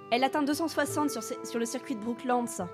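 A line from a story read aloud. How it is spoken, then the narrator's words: Shouted. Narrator (French): cria Ethel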